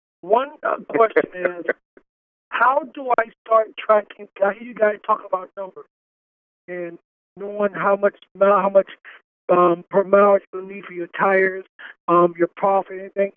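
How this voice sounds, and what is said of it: Hoarse voice. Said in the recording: “please forgive my voice. I had no horse this weekend when kids football game.”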